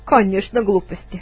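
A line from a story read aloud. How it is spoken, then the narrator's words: Laughing. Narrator (Russian): засмеялся другой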